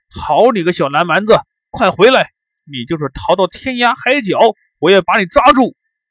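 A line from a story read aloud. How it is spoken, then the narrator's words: Loud shout. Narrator (Chinese): 兀竹大声的喊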